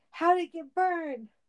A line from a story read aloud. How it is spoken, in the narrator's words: These moments usually ended with Cage shouting